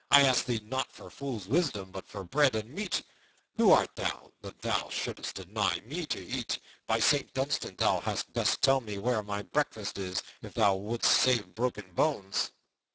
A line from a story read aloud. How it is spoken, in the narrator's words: cried Little John